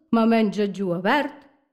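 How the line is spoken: Plain. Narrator (Catalan): respon ella

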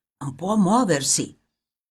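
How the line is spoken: Grave whisper in ear. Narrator (Italian): qualcuno con voce grave gli sussurrava negli orecchi

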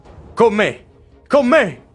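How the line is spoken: Shouted. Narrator (Italian): grida

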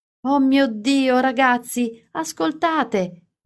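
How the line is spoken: Exclaiming. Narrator (Italian): esclamava

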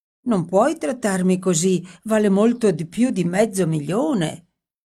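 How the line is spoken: Whimpering. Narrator (Italian): L'altro piagnucola

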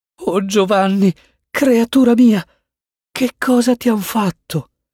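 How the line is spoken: Stammering mother. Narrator (Italian): balbettò la madre

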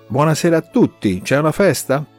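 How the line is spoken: Man exclaiming from doorway. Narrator (Italian): esclama un uomo dall'uscio della porta

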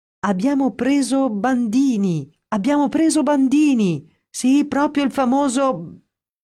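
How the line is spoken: Shouting excitedly. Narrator (Italian): a gridare tutto esaltato

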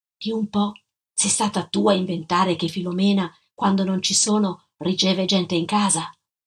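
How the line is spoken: Whispered. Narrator (Italian): sussurrai

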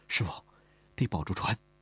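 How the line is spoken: Soft-spoken. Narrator (Chinese): 李婉儿轻声说道

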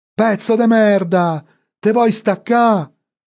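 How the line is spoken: Distant yelling. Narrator (Italian): sentì urlare Franco in lontananza

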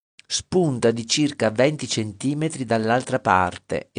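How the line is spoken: Exclaiming. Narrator (Italian): esclamò

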